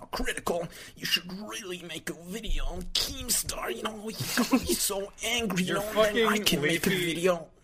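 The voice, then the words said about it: Imitates another person's voice. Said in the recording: “Your Leafy impression sounds like Joel from Vine Sauce.”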